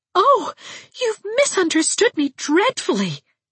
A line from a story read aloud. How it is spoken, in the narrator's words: she exclaimed